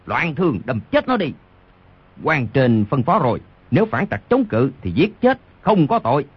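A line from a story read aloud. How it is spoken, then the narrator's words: Furious roar in pain. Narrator (Vietnamese): Đoàn Thiên Đức trúng đòn đau quá, vô cùng tức giận gầm lên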